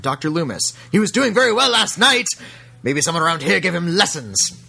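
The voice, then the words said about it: Imitates another person's voice. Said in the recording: “That's my Donald Pleasance impersonation. ... That's not bad.”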